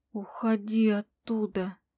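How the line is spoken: Weak whisper. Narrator (Russian): прошептала, неспособная говорить громко и твердо

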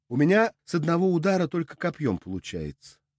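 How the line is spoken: Timid interjection. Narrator (Russian): робко вставила Саша

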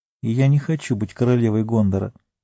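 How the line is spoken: Quiet addition. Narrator (Russian): тихо добавила

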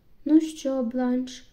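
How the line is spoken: Plain. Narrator (Ukrainian): сказав лорд Інгрем

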